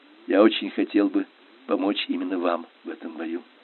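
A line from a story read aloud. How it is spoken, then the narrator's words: Quiet. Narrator (Russian): тихо сказал Тюрберт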